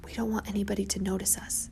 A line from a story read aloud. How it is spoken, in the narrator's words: I whispered